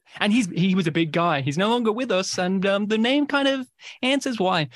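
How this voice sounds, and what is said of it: Australian accent. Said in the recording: “that Australian, that accent”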